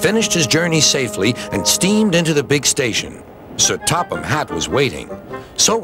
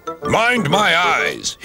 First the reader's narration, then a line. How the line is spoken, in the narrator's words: grumbled